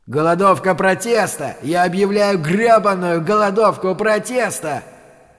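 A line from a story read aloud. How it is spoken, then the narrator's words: Defiant shouting. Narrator (Russian): Майк Чалдрас вызывающе кричал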